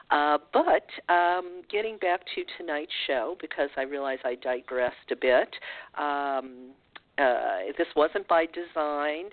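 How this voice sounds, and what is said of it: Sick, congested voice. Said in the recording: “my voice is not normal. I've been fighting a head cold and chest cold, so this is why I sound the way I do.”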